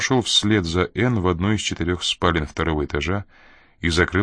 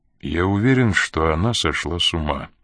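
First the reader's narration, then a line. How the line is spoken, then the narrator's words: Calm reply. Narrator (Russian): спокойно ответил Коридон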